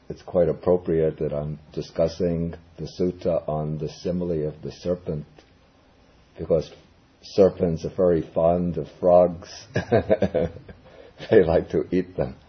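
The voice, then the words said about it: Hoarse, croaky sore-throat voice. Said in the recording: “excuse my voice. ... I have a sore throat, and so it sounds like I have a collection of frogs in my voice today”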